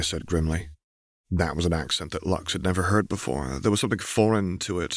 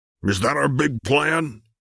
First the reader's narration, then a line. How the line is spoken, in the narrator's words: Aramis spat